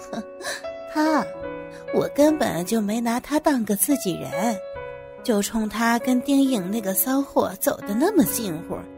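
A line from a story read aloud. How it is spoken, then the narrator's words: Cold sneer. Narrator (Chinese): 王总冷笑了一声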